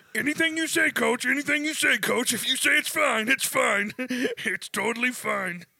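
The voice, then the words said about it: Imitates another person's voice. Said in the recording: “That was my Mahomes impression.”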